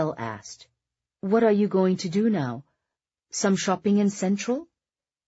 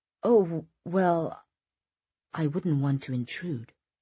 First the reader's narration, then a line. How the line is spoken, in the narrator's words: Isabel said hesitantly